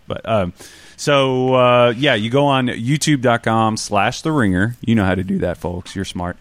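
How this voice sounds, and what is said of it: Natural Southern country accent. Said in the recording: “You're skipping the T in the word ... Oh, I'm country ... The only like Southern person at the Ringer ... This is like genuinely how I talk. People ask me if I hide my accent. I don't.”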